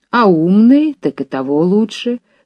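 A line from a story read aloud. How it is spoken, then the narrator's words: Plain, old man. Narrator (Russian): сказал старик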